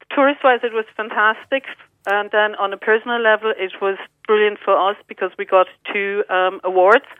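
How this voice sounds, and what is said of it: German accent in English. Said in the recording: “I can hear the accent still. You still have the German accent.”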